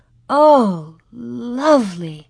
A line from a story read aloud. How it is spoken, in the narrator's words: Mary breathed